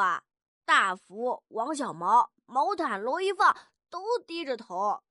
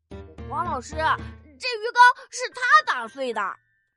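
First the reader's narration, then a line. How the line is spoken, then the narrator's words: Bright, eager. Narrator (Chinese): 我就眼前一亮，对黄老师说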